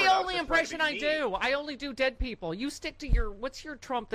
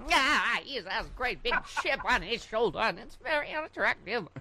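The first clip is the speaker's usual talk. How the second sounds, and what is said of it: Imitates another person's voice. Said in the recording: “I do my Katharine Hepburn ... Oh, that's a good Kate.”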